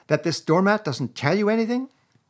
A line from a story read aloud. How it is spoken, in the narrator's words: cried the excited rat